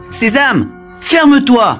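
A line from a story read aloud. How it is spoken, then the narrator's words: Shouted. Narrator (French): crie-t-il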